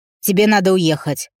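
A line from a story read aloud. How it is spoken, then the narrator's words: Sharp, curt. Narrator (Russian): Резко бросил он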